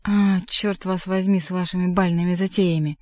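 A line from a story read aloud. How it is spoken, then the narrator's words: Grumbling mutter. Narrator (Russian): буркнул Воланд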